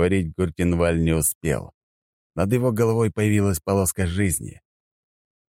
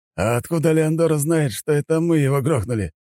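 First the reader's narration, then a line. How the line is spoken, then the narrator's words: Laughing. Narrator (Russian): рассмеялся маг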